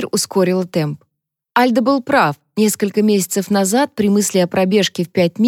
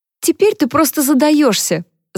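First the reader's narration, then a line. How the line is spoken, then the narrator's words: Laughing. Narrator (Russian): засмеялась Харпер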